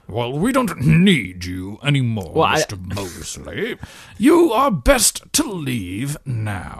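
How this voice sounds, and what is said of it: Imitation of the character Carson. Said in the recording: “your Carson impersonation? It's getting too good.”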